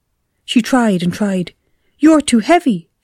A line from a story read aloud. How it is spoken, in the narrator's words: she cried